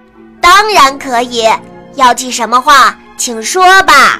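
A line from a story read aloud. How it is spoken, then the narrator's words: Loud answer from mailbox. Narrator (Chinese): 小青蛙在邮筒里大声回答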